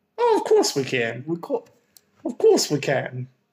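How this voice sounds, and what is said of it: Put-on blended accent. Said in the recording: “I don't know what accent that is. ... I like to blend them”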